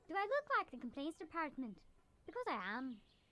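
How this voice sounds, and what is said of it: Irish accent. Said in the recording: “What is that accent? ... Why is that Irish?”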